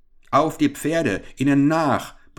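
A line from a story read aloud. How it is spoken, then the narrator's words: Furious roar. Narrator (German): brüllte der Geprellte rasend vor Wut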